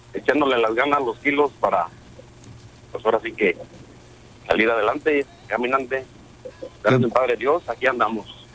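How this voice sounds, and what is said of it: Sick, deep announcer-like voice. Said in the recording (Spanish): “Estoy quedando malo de la gripa... Traigo voz de locutor”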